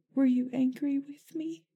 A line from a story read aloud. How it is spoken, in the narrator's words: Sirius chuckled softly, trying not to cry as well